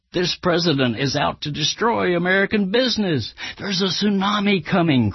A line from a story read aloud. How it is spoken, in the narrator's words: cried